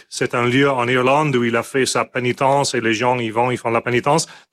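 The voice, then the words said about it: Self-described terrible accent. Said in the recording (French): “mon accent était terrible ... À écouter mon accent”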